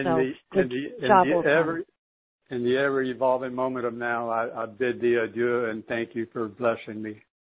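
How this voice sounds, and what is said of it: Southern US accent. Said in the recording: “this southern accent”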